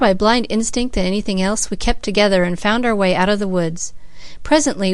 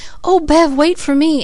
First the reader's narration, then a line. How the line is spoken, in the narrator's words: Cecily kept gasping out